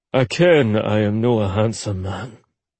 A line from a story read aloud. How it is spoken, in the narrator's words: Ollie said grimly